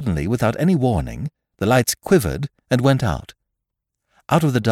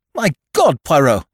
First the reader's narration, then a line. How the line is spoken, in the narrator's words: I cried